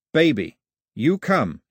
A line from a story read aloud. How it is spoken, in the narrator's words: he said, his voice as firm as the grip